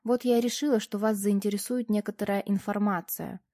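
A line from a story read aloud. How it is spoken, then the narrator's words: Casual neutral tone. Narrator (Russian): как бы, между прочим, произнесла я нейтральным тоном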